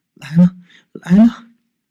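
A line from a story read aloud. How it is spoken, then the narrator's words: Trembling girls' voices. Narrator (Chinese): 两个女孩子的声音在一旁颤抖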